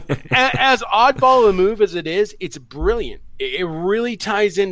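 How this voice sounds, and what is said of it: Usual voice. Nothing is said of it.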